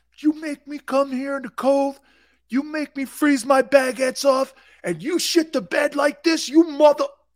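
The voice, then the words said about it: Mimics a rowdy Philadelphia sports fan. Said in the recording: “do I sound like an Eagle fan? Hey, do I sound like an Eagle fan when I do that?”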